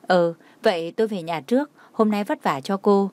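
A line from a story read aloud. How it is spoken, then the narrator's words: Smiling. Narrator (Vietnamese): Nhã Tuệ mỉm cười nói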